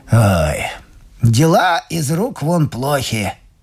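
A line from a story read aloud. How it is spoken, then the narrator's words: Grumble. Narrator (Russian): проворчал мистер Эдеринг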